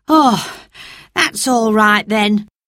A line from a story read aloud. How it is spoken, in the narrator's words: sighed the man